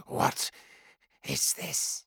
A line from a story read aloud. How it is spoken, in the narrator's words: Rach whispered